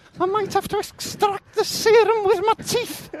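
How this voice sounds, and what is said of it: Put-on accent veering Welsh. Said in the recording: “my accent is veering towards the Welsh, you'd notice you've gone into Wales”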